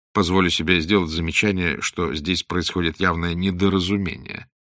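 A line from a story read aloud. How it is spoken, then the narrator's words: Calm voice. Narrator (Russian): спокойно произнес Блад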